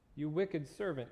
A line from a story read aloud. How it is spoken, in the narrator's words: he said